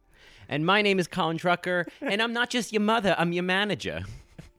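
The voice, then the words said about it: Put-on Boston accent, not quite convincing. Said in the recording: “that was our best Boston accent ... I think I got as far as Rhode Island”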